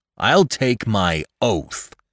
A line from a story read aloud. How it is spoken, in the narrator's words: cried Lumsden angrily